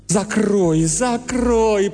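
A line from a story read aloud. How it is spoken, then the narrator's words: Groaning. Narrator (Russian): простонал Бейли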